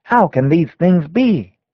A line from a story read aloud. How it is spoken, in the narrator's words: When they are bidden to look to Jesus and believe that He saved them solely through His grace, they exclaim